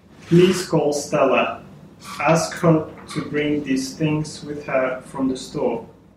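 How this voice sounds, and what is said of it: Russian-accented English. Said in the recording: “speaking Russian ... he sounded like this ... a foreign accent”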